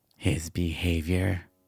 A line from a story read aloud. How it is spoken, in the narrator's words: Sharon growled